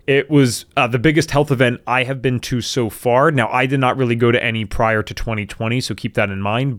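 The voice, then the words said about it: Worn-out, strained voice. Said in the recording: “my voice is seeming a little shot to you”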